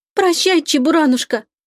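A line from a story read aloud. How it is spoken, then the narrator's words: Sobbing. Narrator (Russian): разрыдалась Лика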